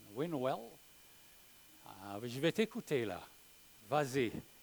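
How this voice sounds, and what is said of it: Imitated English-speaker accent in French. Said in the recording (French): “C'est un anglophone, il parle avec son accent.”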